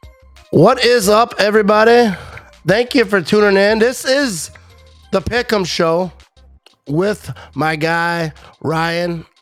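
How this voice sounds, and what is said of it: Slightly sloshy, impaired voice. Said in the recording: “My voice is a little sloshy.”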